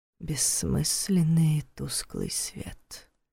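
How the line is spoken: Hissing whisper. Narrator (Russian): свистящим шепотом произнес

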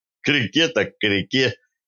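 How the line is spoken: Laughing. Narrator (Russian): засмеялся Кованьков

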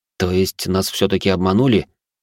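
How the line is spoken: Wry grunt in pain. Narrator (Russian): хмыкнул я, поморщившись от боли в запястьях

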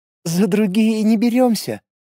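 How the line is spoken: Cooing, woman. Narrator (Russian): проворковала блондинка

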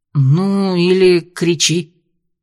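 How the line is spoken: Forced optimistic remark. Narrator (Russian): Джим выдавил оптимистичное

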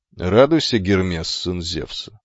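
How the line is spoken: Calm, confident, dignified. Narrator (Russian): спокойно приветствовал, произнося каждое слово с уверенным достоинством

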